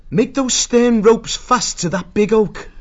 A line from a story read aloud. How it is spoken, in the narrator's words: Martin called out to them